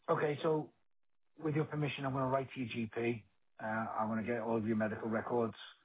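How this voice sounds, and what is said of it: Scouse Liverpool accent. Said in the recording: “my Scouse accent”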